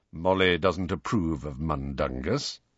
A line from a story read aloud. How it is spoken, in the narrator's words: said Sirius in an undertone